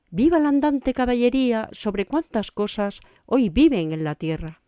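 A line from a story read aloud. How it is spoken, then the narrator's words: Calmer, satisfied exclamation. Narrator (Spanish): sosegóse un poco Don Quijote y, lleno de satisfacción, exclamó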